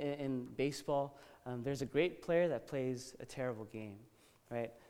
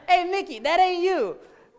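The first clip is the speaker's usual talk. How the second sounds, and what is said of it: Put-on New York accent. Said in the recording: “That's the best New York accent, sorry ... Okay, that's a Jonathan accent.”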